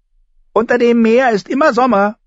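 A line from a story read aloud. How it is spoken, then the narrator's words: High-pitched voice. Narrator (German): sagte er mit hoher Stimme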